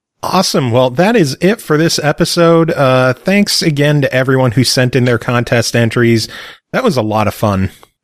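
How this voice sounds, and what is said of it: Strained, worn-out voice. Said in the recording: “My voice is barely surviving right now”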